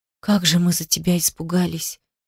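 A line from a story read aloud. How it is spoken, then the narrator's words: Quiet. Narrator (Russian): тихо сказала она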